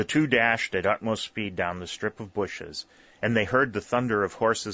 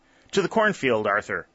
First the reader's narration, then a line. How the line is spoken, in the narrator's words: he cried to his comrade